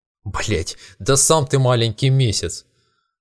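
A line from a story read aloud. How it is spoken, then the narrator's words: Angry snap, sleeping moon. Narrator (Russian): Зло бросил спящий месяц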